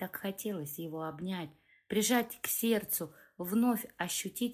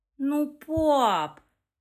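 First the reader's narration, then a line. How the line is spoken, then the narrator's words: Offended drawl. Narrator (Russian): протянула обиженно Лекса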